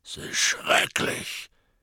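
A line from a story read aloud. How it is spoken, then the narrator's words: Grumbling into beard. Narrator (German): brummte Hagrid in seinen Bart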